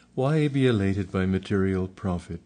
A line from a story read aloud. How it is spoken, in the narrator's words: Father replied